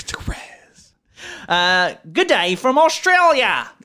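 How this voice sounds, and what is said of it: Put-on Australian accent. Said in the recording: “Accent the whole time ... The only time I'm going to do it.”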